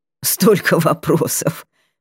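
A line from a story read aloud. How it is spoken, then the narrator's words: Laughing master. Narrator (Russian): Рассмеялся мэтр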